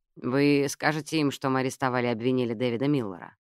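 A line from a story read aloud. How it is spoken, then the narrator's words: Plain. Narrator (Russian): спросил Майлз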